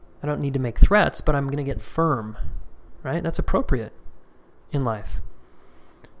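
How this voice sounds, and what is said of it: Usual voice. Nothing is said of it.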